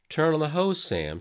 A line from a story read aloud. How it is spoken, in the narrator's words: she said